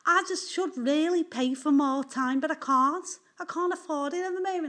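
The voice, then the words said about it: Put-on Liverpool accent. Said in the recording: “my generic real Liverpool accent, which I have managed to fool someone once with my Liverpool accent, who was from Liverpool once”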